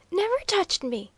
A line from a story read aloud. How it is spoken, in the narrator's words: he cried